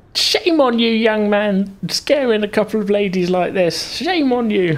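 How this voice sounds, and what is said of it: Old lady character voice. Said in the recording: “do an old lady voice”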